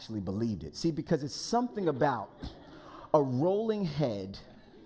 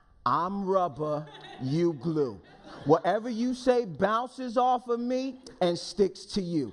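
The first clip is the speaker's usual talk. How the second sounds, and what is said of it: Put-on sassy Northeast New York accent. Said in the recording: “I'm from the Northeast ... just right outside of New York City ... we had some young ladies that really could give you the business. And so I remember the accent. I don't imagine a dainty Southern belle saying this, but you know, it goes a little bit more like this. Work with my acting for a moment.”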